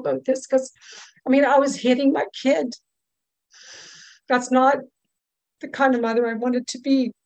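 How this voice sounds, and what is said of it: Emotional, choked-up voice. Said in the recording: “I'm sorry I get emotional”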